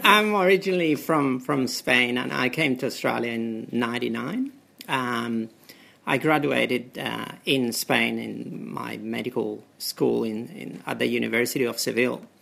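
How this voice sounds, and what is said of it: Spanish-accented English. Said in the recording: “The accent. ... Which is quite like the accent.”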